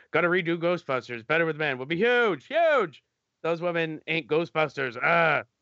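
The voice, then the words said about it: Weak Donald Trump impression. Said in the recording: “in my Trump voice. ... I know you could do a better Trump than that. Your Trump had this, like, up north, like, hey, yo, away.”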